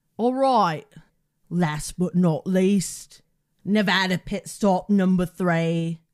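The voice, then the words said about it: Put-on accent. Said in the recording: “What a good accent.”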